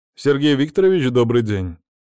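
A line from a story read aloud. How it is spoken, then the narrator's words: Very loud voice. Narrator (Russian): Голос разнесся так громко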